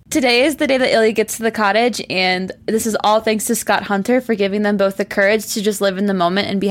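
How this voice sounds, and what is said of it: Usual voice. Nothing is said of it.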